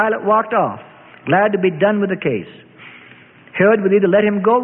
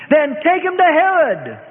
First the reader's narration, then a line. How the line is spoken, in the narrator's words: Pilate shouted